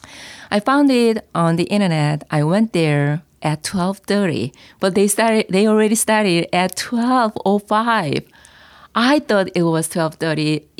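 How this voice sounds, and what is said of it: Korean accent. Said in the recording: “reduce my accent, Korean accent, as you noticed already”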